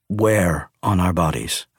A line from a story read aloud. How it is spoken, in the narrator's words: I asked